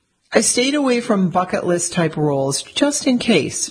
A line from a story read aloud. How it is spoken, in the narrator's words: she said, then let out a hearty laugh